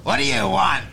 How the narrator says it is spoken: She asked, her voice like nails on a chalkboard

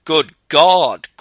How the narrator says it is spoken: cried the old man

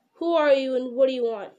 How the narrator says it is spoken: He asked gruffly

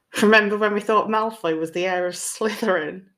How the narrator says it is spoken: Justin laughed

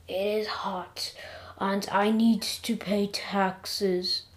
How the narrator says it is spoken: I moaned

